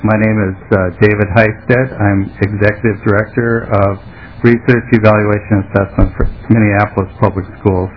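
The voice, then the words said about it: Slightly hoarse, froggy voice. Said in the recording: “I have a little frog in my throat”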